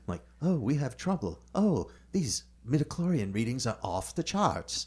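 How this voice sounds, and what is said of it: Accent impression of a film character. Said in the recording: “That's an excellent accent. ... impression”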